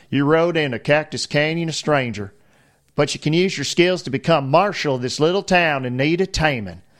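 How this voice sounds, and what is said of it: Put-on Southern US accent. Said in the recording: “I should do this in a Southern accent, right? If it's the old West.”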